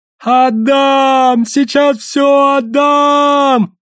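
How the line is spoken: Male yell. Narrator (Russian): завопил он

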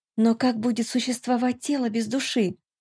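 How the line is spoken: Whisper. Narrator (Russian): прошептала я

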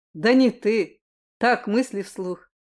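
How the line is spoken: Growled. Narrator (Russian): прорычал Кристиан ему в ответ

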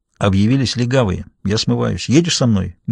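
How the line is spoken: Quick question. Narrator (Russian): быстро спросил Даффи

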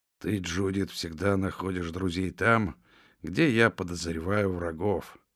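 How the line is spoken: Grumbling. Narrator (Russian): проворчал Том

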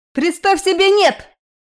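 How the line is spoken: Loud barking shout. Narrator (Russian): Гаркнула Нечаева так, будто считала меня глухой

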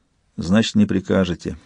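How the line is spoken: Dejected. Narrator (Russian): уныло сказал Интагар

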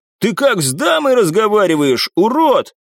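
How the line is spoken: Loud shout. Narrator (Russian): громко крикнул

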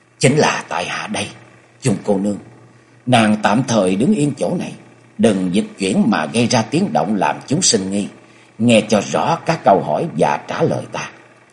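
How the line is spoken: Low, restrained voice. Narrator (Vietnamese): Cố gắng đè nén cảm xúc ở trong lòng, Nhậm Sương Bạch hạ giọng nói

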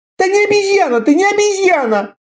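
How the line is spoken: Shouting, near tears. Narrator (Russian): закричал Семирамис, готовый разрыдаться

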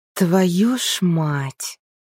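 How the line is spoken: Resigned exhale. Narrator (Russian): обреченно выдохнула Арина

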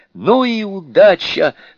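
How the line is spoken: Loud shout. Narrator (Russian): громко закричала она

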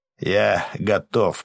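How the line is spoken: Growled. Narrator (Russian): прорычал Гарм

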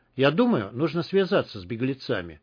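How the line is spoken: Plain. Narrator (Russian): сказал Андрей

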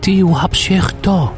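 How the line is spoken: Hissing girl. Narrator (Russian): прошипела девушка

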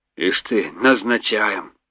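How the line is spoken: Gruff mutter. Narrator (Russian): буркнул капитан

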